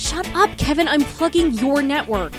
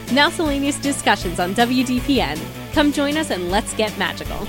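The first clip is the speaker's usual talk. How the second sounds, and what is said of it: Announcer voice. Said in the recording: “I like your announcer voice.”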